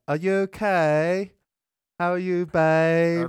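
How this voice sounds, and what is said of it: Imitated drawn-out Essex English accent. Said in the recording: “it drags it out that long... how they sort of drag out words... Essex. English.”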